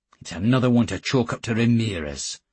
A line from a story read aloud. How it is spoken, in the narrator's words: said Geordie, curtly